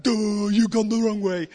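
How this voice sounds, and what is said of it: Cartoon comedy voice impression. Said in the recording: “a comedy voice ... one of the Simpsons ... I don't know if that's really very good impression”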